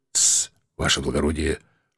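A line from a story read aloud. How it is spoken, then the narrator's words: Whispered warning. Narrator (Russian): шепотом предупредил он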